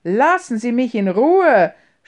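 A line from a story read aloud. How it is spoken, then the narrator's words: Shouted. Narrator (German): schrie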